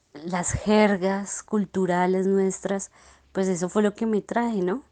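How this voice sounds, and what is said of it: Colombian Spanish accent. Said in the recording (Spanish): “me siento muy orgullosa de ser colombiana ... me siento muy orgullosa de aún no haber perdido mi acento”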